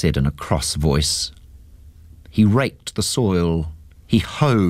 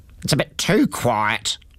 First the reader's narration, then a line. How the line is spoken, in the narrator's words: he grumbled to himself